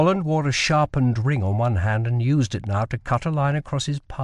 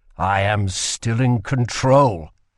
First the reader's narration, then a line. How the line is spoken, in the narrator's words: said Kell through gritted teeth